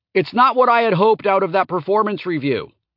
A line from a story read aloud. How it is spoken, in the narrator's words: did say into his ear, once he had turned for me to yell into it